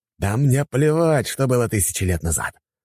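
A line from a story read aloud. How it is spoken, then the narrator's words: Man's growl. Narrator (Russian): рыкнул мужчина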